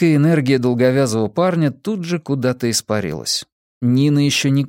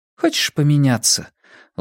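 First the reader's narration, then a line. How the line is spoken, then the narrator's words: Weary offer. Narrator (Russian): устало предложила Нина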